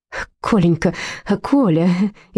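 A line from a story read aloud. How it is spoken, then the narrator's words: Frightened. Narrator (Russian): испуганно заморгала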